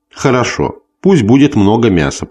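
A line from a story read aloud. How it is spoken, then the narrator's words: Sharper tone, woman. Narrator (Russian): продолжала она еще более резко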